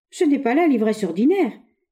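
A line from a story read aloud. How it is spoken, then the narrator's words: Teenage boy exclaiming. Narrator (French): s'écria l'adolescent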